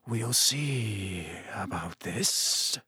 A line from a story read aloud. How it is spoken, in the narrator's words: said Snape softly